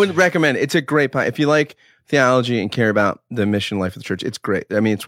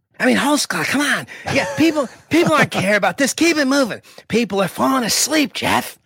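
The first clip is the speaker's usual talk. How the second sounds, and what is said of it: Impression of a co-host, Jack Nicholson-like. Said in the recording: “you've actually been practicing your impersonation of him for a while ... he's like the theological Jack Nicholson on cocaine ... That's pretty accurate.”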